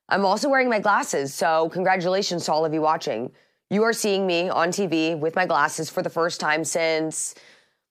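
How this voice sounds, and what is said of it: Slightly scratchy, hoarse voice. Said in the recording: “I woke up with a bit of a, I don't know if it's a sinus issue, but as you can tell, my voice is just a little bit scratchy”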